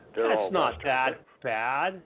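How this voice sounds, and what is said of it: Sarcastic tone. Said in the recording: “That was sarcasm, brother. That was sarcasm.”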